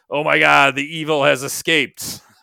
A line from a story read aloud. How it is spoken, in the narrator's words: Loomis shouts